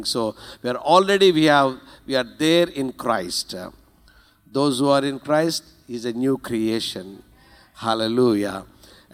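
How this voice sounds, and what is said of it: Strong Indian accent. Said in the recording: “you have a strong Indian accent”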